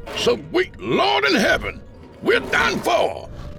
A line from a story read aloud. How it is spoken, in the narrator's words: Delroy yelled